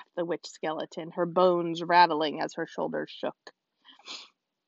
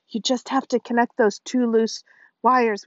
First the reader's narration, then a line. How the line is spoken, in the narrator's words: wheezed Dad